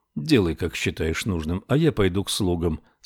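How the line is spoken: Flat, colorless. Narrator (Russian): согласился Ричард бесцветным голосом

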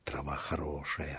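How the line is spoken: Whisper. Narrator (Russian): зашептал Филипп

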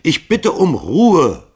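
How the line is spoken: Bellowing. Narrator (German): brüllte Hall sie an

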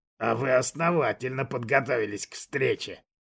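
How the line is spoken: Soft hiss. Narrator (Russian): Мягко прошипел Кшиштоф

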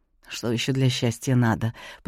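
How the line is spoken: Mutter. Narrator (Russian): пробормотал я

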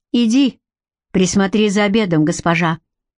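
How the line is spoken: Sudden sharp command. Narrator (Russian): неожиданно резко приказал ей Гарик

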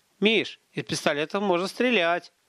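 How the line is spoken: Joyful announcement. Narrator (Russian): радостно объявил Гарин

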